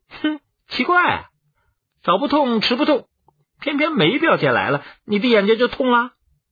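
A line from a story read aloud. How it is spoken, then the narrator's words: Mocking interjection. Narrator (Chinese): 便也插嘴嘲笑道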